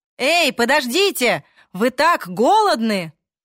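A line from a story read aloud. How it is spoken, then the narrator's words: Shouted after someone. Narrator (Russian): крикнул ей в спину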